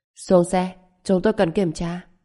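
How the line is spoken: Cold. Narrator (Vietnamese): lạnh lùng nói

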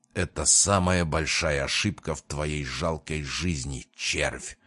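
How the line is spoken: Growled. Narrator (Russian): прорычал Крион

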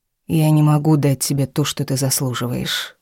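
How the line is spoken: Soft, smiling. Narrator (Russian): улыбнулся мягко

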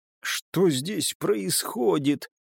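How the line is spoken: Muttered. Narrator (Russian): пробормотал бесик

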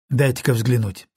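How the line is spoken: Plain. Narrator (Russian): сказал я

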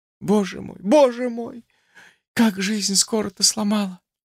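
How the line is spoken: Woman's sobbing sigh. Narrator (Russian): Со всхлипывающим вздохом произнесла женщина

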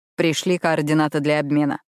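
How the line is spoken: Plain. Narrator (Russian): сказал папа

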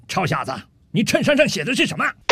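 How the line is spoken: Slow, leisurely soldier. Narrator (Chinese): 这陆军大兵慢悠悠地对着吧台里的酒保说道

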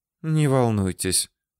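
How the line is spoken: Gentle, affectionate. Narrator (Russian): сказала Ракель Самуиловна и добавила ласково

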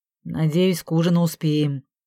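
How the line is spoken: Grumbling. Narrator (Russian): проворчал Виталя

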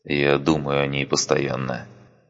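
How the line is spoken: Soft. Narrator (Russian): мягко сказал он

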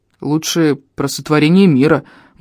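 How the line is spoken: Grumbled. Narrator (Russian): буркнул я

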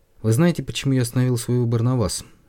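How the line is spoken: Dry question. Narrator (Russian): довольно сухо спросил фабрикант игрушек

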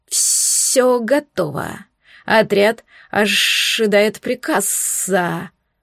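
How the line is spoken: Hissed. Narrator (Russian): прошипела она

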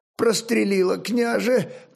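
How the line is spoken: Moaning. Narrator (Russian): простонал Стременной

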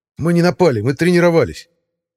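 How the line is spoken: Snapping retort. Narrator (Russian): Огрызнулся Иван

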